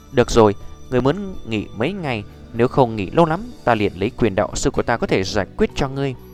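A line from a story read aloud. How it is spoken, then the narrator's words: Gentle speech. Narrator (Vietnamese): Nhược Lâm đạo sư ôn nhu nói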